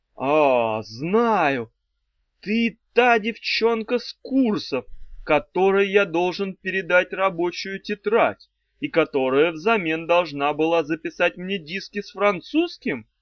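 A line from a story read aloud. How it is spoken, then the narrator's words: Joyful question. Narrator (Russian): спросил радостно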